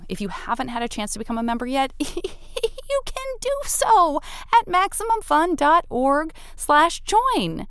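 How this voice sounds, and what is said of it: Condescending, laughy voice. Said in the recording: “do this voice ... this sort of condescending, laughy voice who delivers weird, condescending news”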